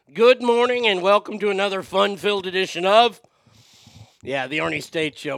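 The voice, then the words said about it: Hoarse, congested voice. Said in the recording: “my voice is almost back. I'm sure by the end of the show today it'll be completely gone ... all congested, woke up coughing”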